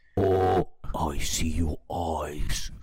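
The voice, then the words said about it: Deep character voice. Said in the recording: “he speaks with a deep voice.”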